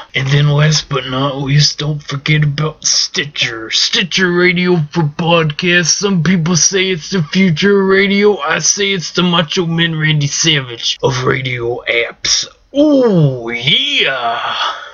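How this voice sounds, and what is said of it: Deep smooth Macho Man Randy Savage impression. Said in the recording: “You hear that dark voice, that deep voice of his? It's pretty smooth. It's a nice voice there, Macho Man.”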